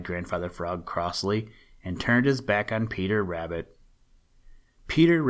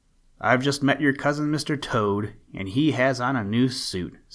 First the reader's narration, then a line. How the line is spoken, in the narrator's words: said Peter Rabbit